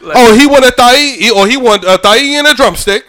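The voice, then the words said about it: Fake Jamaican accent. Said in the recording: “That accent right there, so more beige than anything ... my fake Jamaican accent”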